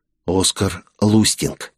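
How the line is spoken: Whisper. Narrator (Russian): Мика ... прошептал

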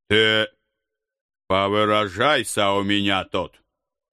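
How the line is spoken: Childishly offended. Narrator (Russian): По-детски впал в обидки дядюшка

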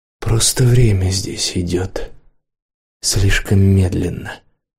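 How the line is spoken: Whispered reply. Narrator (Russian): отозвалась она шепотом

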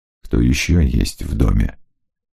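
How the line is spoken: Low-voiced question. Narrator (Russian): спросил Маркус вполголоса

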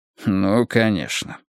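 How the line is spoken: Grumbled. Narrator (Russian): буркнул Джилпин

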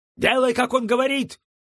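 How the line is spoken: Shout. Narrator (Russian): крикнул Эллен

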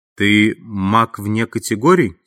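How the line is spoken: Plain. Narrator (Russian): спросил он

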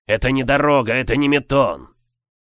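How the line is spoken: Rude, insulting. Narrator (Russian): Он грубо обозвал Матунаса

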